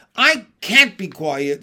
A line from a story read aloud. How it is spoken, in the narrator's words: screamed Wilbur